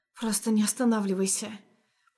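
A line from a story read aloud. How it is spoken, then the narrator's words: Whisper. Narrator (Russian): прошептала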